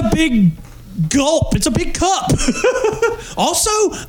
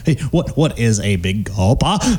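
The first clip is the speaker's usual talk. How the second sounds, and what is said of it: Imitates another person's odd accent. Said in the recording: “Michael Caine and whatever accent that was in this movie ... it sounded like he was trying really hard accent”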